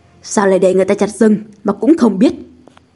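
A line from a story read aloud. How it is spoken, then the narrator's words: Stern shout. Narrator (Vietnamese): Tặc Doãn quay phát lại nghiêm giọng quát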